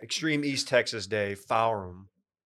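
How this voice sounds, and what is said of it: Put-on East Texas accent. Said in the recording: “It's my East Texas accent. I've been working on it.”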